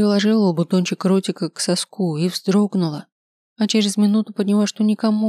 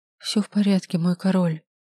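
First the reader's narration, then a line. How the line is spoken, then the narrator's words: Quiet speech. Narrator (Russian): негромко сказала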